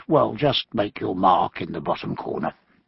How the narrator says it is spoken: he murmured

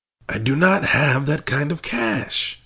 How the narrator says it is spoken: he warned her earnestly

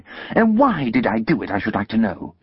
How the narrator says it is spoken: exclaimed my sister

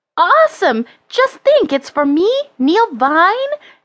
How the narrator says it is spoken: exclaimed Neil, totally overwhelmed

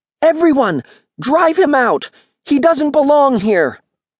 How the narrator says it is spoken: He shouted

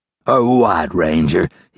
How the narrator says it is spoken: he growled

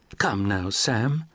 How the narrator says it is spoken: Beatrice Prine said playfully, yet with her cordial air of sophistication

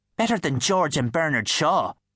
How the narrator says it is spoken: sneered the pixie

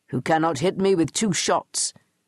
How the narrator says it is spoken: grunted

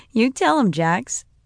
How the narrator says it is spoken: I said with a little laugh

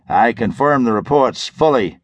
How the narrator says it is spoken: Jimmy Christopher chuckled into the microphone

